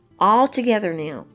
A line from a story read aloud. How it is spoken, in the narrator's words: Miss Bailey exclaimed